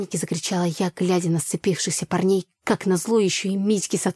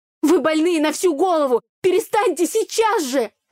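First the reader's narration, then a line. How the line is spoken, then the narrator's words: Frenzied yelling. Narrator (Russian): Орала я, находясь в состоянии аффекта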